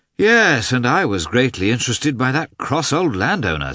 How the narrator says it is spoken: said Levin, with a sigh

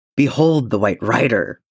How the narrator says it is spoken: he roared

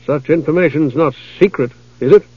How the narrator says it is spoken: The knight appeared nervous, asked softly

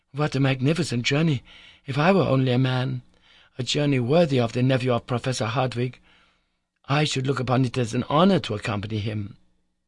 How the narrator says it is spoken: said at last, rather anxiously

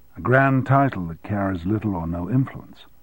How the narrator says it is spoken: she said with a sigh

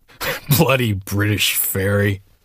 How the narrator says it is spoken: Hemingway muttered into his beer

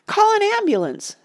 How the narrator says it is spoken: screamed a lady in the crowd

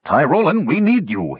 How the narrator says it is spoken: he barked

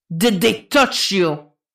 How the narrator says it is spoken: Jason growls

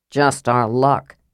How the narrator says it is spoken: Sturm muttered

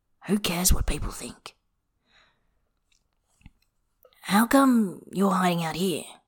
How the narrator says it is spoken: Bai says in a slightly roughened voice

